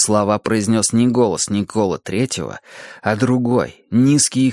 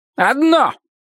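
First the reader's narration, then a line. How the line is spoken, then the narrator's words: High, shrill, unfamiliar voice. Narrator (Russian): ответил незнакомый голос, высокий и визгливый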